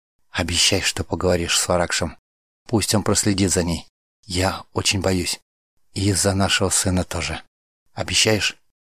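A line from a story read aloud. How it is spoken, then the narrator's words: Whisper. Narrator (Russian): она ... шепнула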